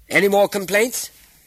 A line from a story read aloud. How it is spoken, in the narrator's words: called out Umar